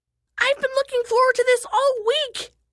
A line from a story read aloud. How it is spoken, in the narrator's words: shrieked Isha